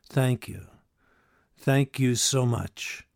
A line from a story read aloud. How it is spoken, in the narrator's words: Charlie ... smiled warmly, and said